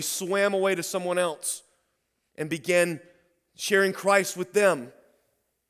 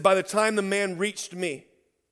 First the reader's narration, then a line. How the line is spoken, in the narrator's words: he said